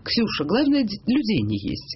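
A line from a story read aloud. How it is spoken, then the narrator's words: Very calm. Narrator (Russian): та ей сказала очень спокойно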